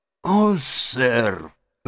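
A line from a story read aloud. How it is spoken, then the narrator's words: Tearful, forced out. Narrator (Russian): выдавил мистер Джаб, заливая слезами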